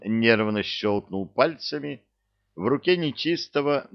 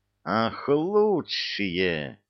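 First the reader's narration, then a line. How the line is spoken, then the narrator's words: Devil hissing into phone. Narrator (Russian): зашипел в трубку дьявол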